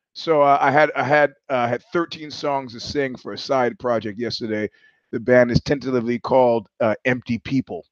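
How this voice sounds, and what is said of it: Hoarse, froggy voice. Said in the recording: “you're going to have to excuse my I'm hoarse. I got a frog in my throat”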